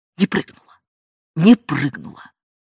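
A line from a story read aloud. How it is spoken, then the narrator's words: Self-calming whispered repetition. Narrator (Russian): соглашался он, и для себя, чтобы окончательно успокоиться, повторял шепотом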